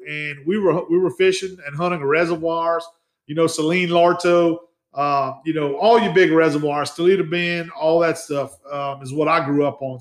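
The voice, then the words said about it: South Louisiana Cajun accent. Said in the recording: “I grew up in the Acadiana area ... we were still Kunas. Obviously, you could hear my accent that I have.”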